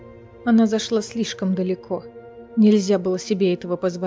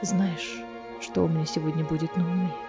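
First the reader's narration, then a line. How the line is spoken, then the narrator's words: Whisper in the ear. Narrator (Russian): прошептал ей на ухо Кассиан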